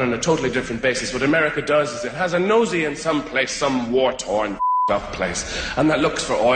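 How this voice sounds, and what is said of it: Usual voice. Nothing is said of it.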